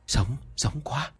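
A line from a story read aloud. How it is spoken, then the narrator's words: Whisper. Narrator (Vietnamese): mấy người công nhân chỉ trò thì thầm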